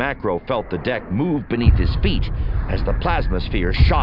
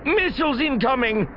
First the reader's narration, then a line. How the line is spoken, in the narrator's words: Dalvu snapped